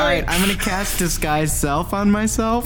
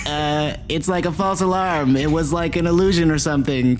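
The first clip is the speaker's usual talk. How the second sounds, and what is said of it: Robot voice. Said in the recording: “in my best robot voice”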